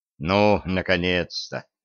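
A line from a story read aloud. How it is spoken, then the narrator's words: Relieved sigh. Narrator (Russian): облегченно вздохнул Синяев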